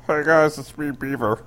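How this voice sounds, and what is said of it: Exaggerated Muppet-like character voice. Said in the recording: “Wish I could do that voice... He's a flaming Muppet.”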